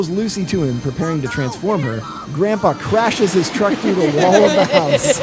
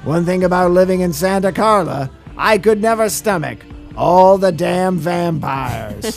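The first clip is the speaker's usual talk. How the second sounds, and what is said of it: Imitates another person's voice. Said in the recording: “was my best Barney Hughes impression... It was very good.”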